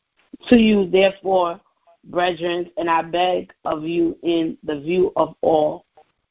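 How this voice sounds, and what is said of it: Speaks English with an accent. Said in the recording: “I apologize for my accent”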